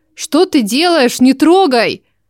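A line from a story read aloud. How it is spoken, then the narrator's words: Shouting. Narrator (Russian): Закричала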